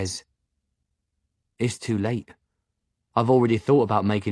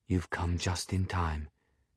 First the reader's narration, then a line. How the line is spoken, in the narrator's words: he says softly